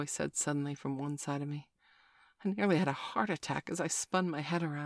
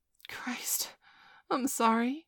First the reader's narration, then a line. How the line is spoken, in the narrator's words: I sputtered